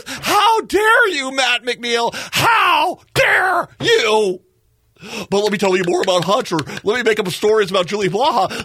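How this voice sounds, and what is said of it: Impression of an indignant Republican. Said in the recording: “That whole little skit I just did would be my impression of what a Republican would be like talking to me”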